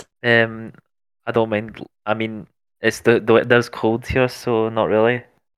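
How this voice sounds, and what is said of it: Scottish accent. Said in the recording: “you seem to have an accent ... Yeah, I'm from Scotland.”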